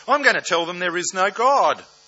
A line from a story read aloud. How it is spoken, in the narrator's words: One devil piped up